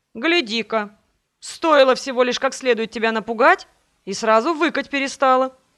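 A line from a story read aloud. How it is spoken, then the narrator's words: Smug snort. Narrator (Russian): Хмыкнул этот ужасный тип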